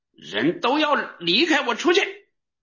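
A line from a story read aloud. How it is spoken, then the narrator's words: Overwhelmed crying out. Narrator (Chinese): 约瑟在左右站着的人面前隐忍不住，他便喊叫说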